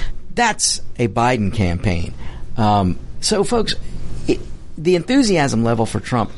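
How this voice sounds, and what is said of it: Usual voice. Nothing is said of it.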